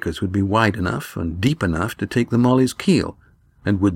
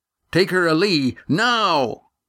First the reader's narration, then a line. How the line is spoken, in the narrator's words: Estrella shouted